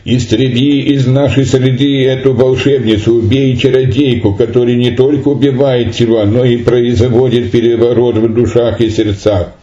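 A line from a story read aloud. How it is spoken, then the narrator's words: Loud shouting. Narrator (Russian): они громко кричали, обращаясь к судье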